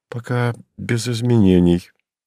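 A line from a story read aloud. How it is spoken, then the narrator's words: Deliberately calm. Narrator (Russian): нарочито спокойно ответил тот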